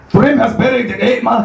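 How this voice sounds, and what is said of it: Failed Essex, Geordie-Northern Irish mix. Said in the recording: “could you do Essex for us? ... That was a mixture between Geordie and Northern Irish.”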